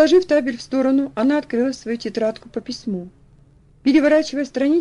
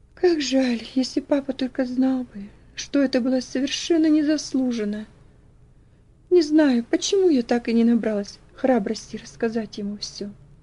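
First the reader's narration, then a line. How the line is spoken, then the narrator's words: Quiet sigh, whisper to herself. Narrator (Russian): девочка тихо вздохнула, прошептав про себя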